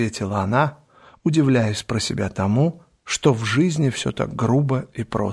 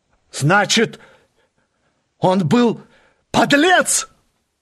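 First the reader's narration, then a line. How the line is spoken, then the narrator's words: Angry young man shouting. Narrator (Russian): крикнул юноша, сжимая кулаки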